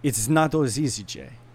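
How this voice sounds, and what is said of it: Put-on Italian accent. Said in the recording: “I'm going to do the worst Italian accent ... That actually sounded very good.”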